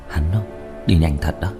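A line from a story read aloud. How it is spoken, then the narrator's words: Sighing, quiet murmur. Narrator (Vietnamese): Diệp Thiếu Dương thở dài một hơi, âm thầm nói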